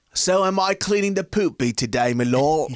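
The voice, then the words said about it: Bad put-on British accent. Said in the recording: “your British accent was rubbish ... We were fucking up that accent so bad ... It went to like four different types of British accents”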